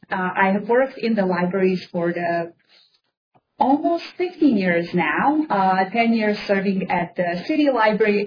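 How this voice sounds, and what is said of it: Bosnian accent. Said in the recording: “I am originally from Bosnia, Kansas accent,”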